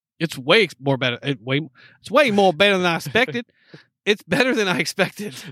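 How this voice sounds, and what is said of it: Put-on Southern accent. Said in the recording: “See, that's a Southern accent right there. Yes. You finally got one right.”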